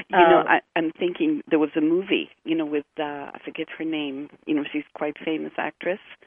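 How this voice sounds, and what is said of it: Hebrew accent. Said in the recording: “That's the Hebrew accent coming out when I'm tired.”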